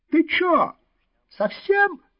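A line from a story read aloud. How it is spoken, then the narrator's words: Shrill cry. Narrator (Russian): визгливо вскрикнул Иванцов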